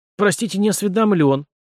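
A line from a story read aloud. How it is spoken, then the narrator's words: Offended exclamation, doctor. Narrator (Russian): обиженно воскликнул доктор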